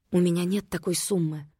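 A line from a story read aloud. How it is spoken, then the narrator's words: Whispering. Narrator (Russian): прошептала она Матвею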